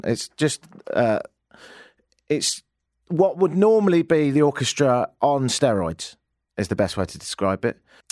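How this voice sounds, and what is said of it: Speaks with a noticeable accent. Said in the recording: “just because I've got this accent.”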